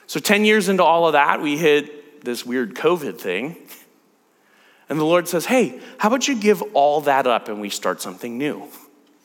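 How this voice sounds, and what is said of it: Speaks with a noticeable accent. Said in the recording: “I've got a bad accent”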